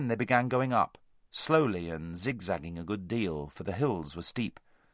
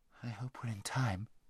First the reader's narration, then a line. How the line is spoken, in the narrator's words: murmured Hwin